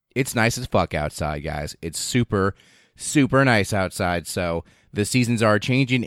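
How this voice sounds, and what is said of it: Rough, strained allergy-affected voice. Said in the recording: “my voice is a little shittier, a little wonkier, a little less good, and a little bit more uncomfortable for me to speak... that goddamn tree pollen”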